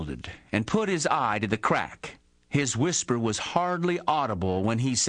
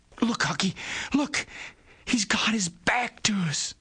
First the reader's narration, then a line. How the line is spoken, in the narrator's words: Tom choked off and whispered